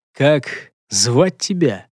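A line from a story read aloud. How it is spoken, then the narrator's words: Slightly hoarse voice. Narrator (Russian): начал было говорить своим хрипловатым голосом Гортер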